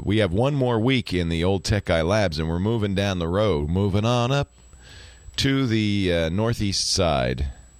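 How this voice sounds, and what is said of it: Gruff voice with a cold. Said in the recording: “I have a cold, I'm a little stressed, I'm a little gruff”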